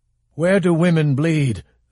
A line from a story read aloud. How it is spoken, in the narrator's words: the other said, cried in a harsh, exasperated voice, not stopping